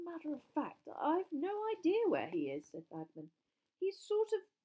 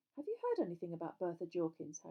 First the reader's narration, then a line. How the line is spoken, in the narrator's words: Harry asked